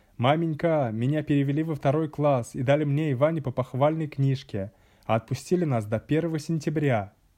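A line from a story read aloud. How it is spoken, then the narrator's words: Shouting. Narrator (Russian): я закричал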